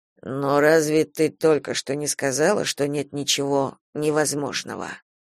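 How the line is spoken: Purring. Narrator (Russian): Практически промурлыкал он

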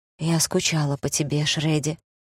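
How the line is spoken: Breathy exhale. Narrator (Russian): выдохнула Кортни

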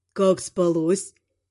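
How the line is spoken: Unctuous voice. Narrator (Russian): Елейным голосом спрашивает он

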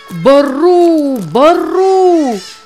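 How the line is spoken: Shout. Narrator (Russian): закричал Нева

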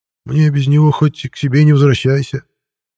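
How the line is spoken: Sad sigh. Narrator (Russian): печально вздохнул Михей Петрович

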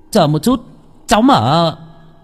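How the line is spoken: Shouting. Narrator (Vietnamese): Tôi mới hét lên

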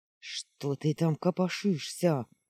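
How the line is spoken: Nervous, through clenched teeth. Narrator (Russian): Нервно цедил сквозь зубы Дуэздея

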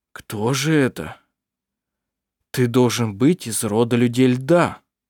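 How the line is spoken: Slow, after deep sigh. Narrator (Russian): Глубоко вздохнув, Арф медленно произнес

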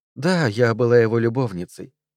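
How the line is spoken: Regretful sigh. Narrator (Russian): вздохнула Одри с сожалением

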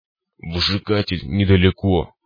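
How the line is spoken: Hoarse cyclops rasp. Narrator (Russian): прохрипел циклоп

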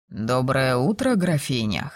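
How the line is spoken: Slightly hoarse greeting. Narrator (Russian): хрипловато поздоровался он

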